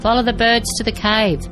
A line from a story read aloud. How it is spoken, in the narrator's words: Axel shouted